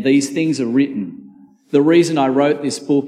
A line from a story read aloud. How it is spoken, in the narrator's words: he says